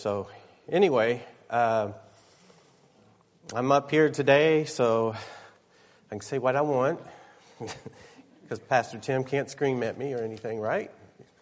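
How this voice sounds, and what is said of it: Slightly nasal, congested voice. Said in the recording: “Fighting a cold, or getting rid of a cold, so sorry if I sound a little nasal”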